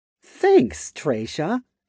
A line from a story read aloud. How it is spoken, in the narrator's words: said in a bright tone, grinning